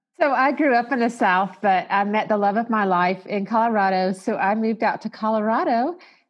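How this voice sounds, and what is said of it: Southern American accent. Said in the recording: “I think I still have my Southern accent out here, though ... I bet they kind of hear it.”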